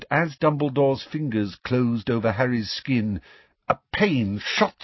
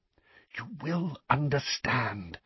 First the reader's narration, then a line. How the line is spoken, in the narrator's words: whispered Dumbledore